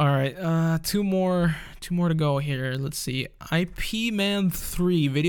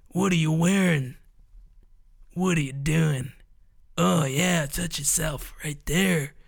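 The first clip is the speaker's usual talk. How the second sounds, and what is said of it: Poor imitation of another person's voice. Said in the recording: “That was a horrible impression.”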